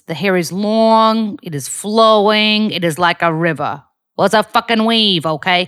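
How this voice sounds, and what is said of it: Forward, direct New York accent, Rosie O'Donnell. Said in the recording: “a New York accent ... It was Rosie O'Donnell monologue. So she's got this, you know, very forward, direct New York accent ... she spoke a lot like that”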